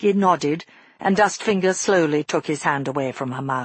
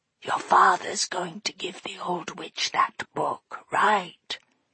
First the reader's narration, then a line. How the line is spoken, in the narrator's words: he whispered